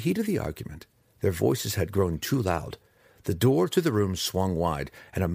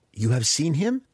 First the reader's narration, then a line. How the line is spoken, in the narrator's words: Alton asked, his fingers tapping anxiously